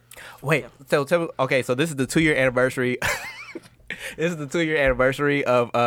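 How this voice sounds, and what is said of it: Usual voice. Nothing is said of it.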